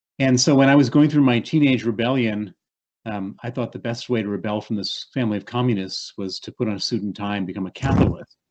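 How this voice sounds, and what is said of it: American accent. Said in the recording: “you hear my accent. It's an accent from the United States.”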